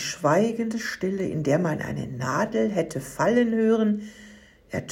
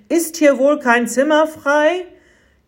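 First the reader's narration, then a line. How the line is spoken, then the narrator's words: Loud call. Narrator (German): Schließlich rief Josef mit lauter Stimme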